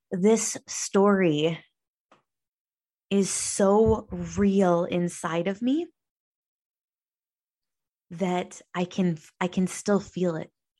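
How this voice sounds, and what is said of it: Emotional, choked-up voice. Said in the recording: “You can probably hear me starting to get choked up.”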